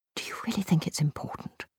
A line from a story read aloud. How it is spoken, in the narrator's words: She whispered